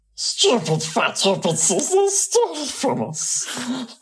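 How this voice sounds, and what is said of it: Gollum character voice. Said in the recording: “did a Gollum impression”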